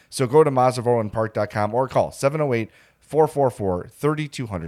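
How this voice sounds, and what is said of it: Hoarse, congested voice from cold. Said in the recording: “my voice is shot. ... I have a cold. I have a head cold.”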